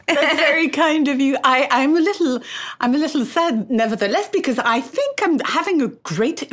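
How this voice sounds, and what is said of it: French accent. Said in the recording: “I love this French accent of yours”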